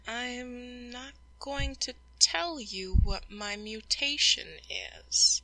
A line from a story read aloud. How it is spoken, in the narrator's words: he says slowly